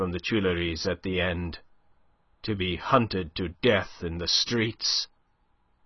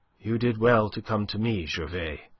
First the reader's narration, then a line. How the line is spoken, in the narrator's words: she said